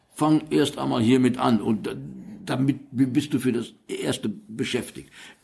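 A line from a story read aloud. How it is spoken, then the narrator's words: Stuttering, maybe deliberate. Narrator (German): er stotterte erneut, doch dieses Mal war nicht klar, ob es mit Absicht war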